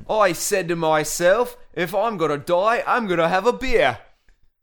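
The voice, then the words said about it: Bad imitation Australian accent. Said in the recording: “I've never done an Australian accent in my life ... do a terrible one ... do a bad uh, Australian accent”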